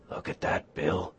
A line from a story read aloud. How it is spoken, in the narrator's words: Henry whispered